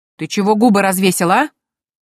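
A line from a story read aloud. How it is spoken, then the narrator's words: Menacing bark. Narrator (Russian): Грозно рявкнула Дейзи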